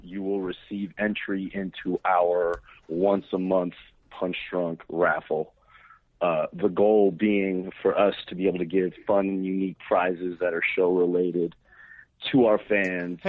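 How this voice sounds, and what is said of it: Hoarse, worn-out, flat-sounding voice. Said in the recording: “Can you sound a little more enthusiastic about it? You sound like you're just reading your STD chart. ... My voice is kind of shot.”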